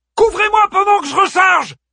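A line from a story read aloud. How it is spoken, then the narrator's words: Shouting. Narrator (French): cria Pétir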